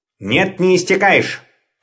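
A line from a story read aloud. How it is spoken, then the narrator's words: Sharp interruption. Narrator (Russian): резко оборвал его папа Ларсон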